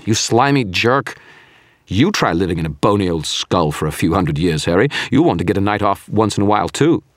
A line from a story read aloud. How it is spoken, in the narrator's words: I yelled